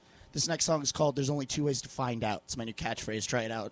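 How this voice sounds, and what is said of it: Hoarse, squeaky strained voice. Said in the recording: “My voice is fried. If you hear a little squeaking, it's okay.”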